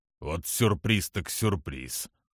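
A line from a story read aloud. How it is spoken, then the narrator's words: Gruff mutter. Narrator (Russian): буркнул Киллари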